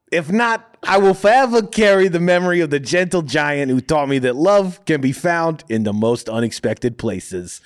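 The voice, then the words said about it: Put-on Minnesota accent, pretty good. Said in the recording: “I could rock a Minnesota accent that good ... That was pretty good.”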